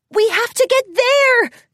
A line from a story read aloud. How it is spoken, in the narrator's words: Twilight Sparkle shouted